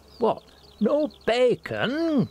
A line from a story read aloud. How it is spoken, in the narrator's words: grieving fans of the full English wailed from the back of the queue